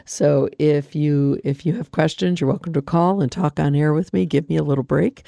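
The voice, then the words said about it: Hoarse, froggy voice. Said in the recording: “As you can hear, my voice is a little froggy.”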